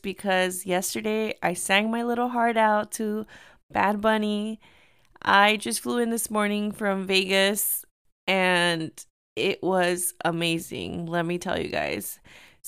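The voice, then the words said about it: Hoarse, strained, fading voice. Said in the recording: “excuse my voice. I am kind of losing my voice”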